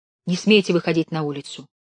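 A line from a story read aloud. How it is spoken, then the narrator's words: Stern hushing. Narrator (Russian): строго цыкнула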